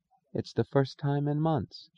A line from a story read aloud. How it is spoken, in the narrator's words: she whispered